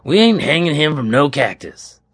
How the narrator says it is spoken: the judge snapped

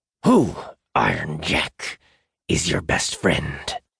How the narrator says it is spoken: repeated through gritted teeth

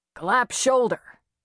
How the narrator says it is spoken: Doc said with a grunt

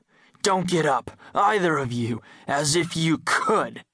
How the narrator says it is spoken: the stranger said with a nasty laugh

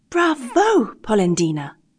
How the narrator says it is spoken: exclaimed the same little voice

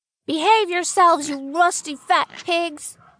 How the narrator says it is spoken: yells Little Boy

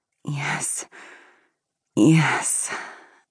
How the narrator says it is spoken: sighed

